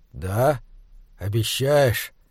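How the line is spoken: Quiet. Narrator (Russian): тихо сказал Хорза

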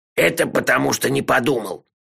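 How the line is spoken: Grumbling. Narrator (Russian): проворчал он

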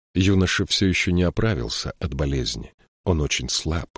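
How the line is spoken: Quiet. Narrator (Russian): тихо проговорил Джирики

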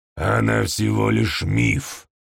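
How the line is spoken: Growling. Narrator (Russian): прорычал Нилкхан

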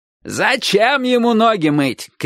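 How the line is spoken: Shouting, old man. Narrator (Russian): крикнул дедушка

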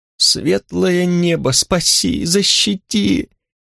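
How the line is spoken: Moaning. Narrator (Russian): застонал в темноте воришка

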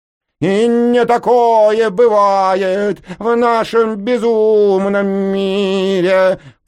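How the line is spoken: Sudden loud singing. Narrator (Russian): пропела вдруг она так громко, что у меня зазвенело в ушах

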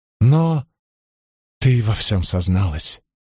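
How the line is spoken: Inner voice whispering. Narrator (Russian): прошептал внутренний голос

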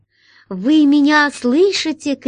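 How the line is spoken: Shouting. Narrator (Russian): крикнула она

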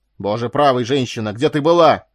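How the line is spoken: Angry, furious exclamation. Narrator (Russian): воскликнул он сердито и яростно

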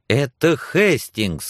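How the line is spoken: Exclamation. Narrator (Russian): воскликнула Сексон

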